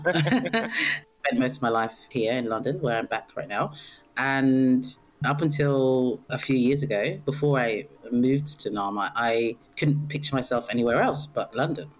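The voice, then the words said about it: London accent. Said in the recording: “As you may or may not be able to tell from my accent, I'm a Londoner.”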